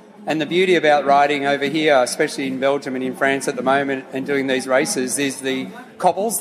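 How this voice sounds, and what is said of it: Australian accent. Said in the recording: “I'm picking up a bit of an accent here, and it's not French, and it's not Belgium. You're an Australian, am I right? ... I've got a true Aussie accent”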